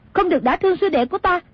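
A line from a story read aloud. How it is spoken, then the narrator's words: Woman shouting. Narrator (Vietnamese): Nàng quát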